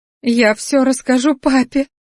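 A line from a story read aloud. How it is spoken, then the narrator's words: Sobbing. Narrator (Russian): всхлипывала она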